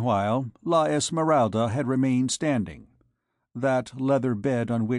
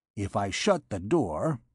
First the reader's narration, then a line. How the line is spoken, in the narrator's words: he muttered